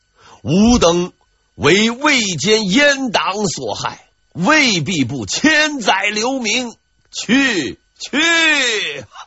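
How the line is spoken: Laughing loudly. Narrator (Chinese): 马杰大笑

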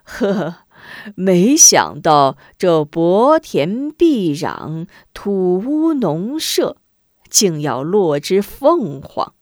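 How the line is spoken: Chuckling, muttering to himself. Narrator (Chinese): 巡检公大人笑呵呵，摇头自语

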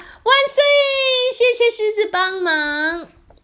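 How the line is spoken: Children shouting together. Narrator (Chinese): 在狮子背上的小朋友一起大声喊

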